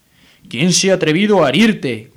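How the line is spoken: Giant shouting. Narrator (Spanish): gritó el gigante de nuevo

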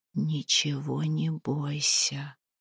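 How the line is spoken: Whisper. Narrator (Russian): шепнул он

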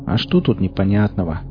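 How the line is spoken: Sighing. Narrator (Russian): вздохнул мытарь

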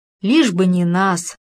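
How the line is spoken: Smirking mutter. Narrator (Russian): усмехнулся лучший друг и пробурчал

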